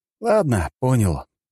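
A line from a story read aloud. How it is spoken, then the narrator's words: Sigh. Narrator (Russian): вздохнул я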